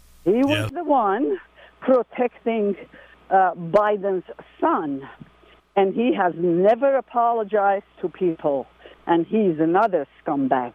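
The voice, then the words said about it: Foreign accent. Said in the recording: “I'm recognizing an accent here.”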